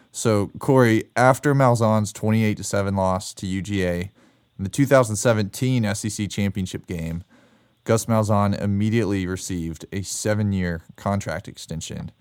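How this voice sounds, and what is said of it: Sick, under-the-weather voice. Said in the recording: “I'm a little under the weather at the moment, as you might be able to tell from my voice”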